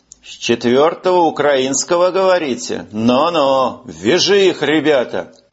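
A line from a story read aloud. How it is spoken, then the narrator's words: Drawling. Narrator (Russian): сержант протянул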